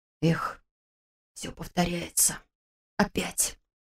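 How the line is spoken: Tragic whispered exclamation. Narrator (Russian): Трагическим шепотом воскликнул Слава

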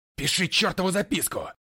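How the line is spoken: Barking. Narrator (Russian): рявкнул я

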